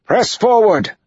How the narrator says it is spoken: Matt yelled

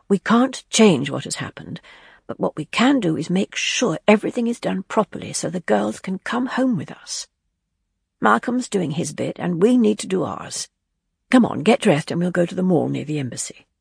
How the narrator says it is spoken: she said quietly

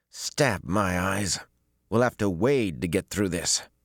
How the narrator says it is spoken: Besslin grumbled in disgust

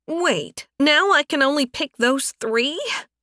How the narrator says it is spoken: She squeaked

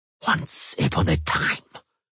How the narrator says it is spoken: Bonhart hissed

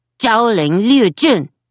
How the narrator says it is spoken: Simon called out

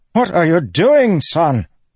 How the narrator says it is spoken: Rishon sputtered on the ground, his nose bleeding

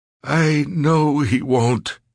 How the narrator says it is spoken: Ricky said miserably

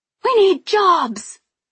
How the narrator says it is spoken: someone shrieked

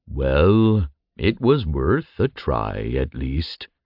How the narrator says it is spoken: Thelum rumbled with a sigh

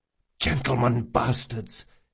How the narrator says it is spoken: hissed Locke

